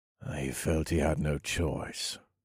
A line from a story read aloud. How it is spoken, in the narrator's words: I said in a grim tone